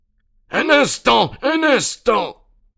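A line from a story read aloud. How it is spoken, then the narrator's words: Quarrelsome voice exclaiming. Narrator (French): s'écria une voix querelleuse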